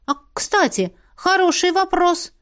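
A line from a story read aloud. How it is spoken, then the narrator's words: Exclamation. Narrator (Russian): воскликнула я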